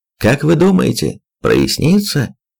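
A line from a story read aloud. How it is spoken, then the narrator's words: Cheerful shout. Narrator (Russian): Бодро кричите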